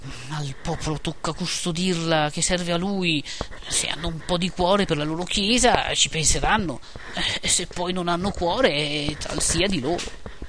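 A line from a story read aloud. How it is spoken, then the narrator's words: Muttered through teeth. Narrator (Italian): Don Abbondio disse tra i denti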